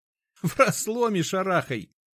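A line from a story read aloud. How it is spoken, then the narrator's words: Laughing. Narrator (Russian): рассмеялся Ефим Прохорович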